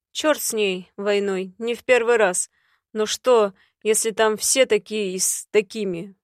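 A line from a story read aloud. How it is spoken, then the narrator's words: Gloomy. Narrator (Russian): выдал мрачно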